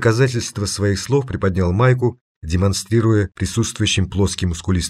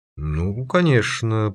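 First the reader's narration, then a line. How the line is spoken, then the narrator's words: Muttering. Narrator (Russian): пробормотал Велга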